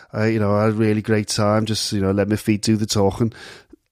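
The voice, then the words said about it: Wayne Rooney impression. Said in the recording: “that's Wayne Rooney who sort of speaks like this ... Wayne Rooney ... not posh in terms of his accent”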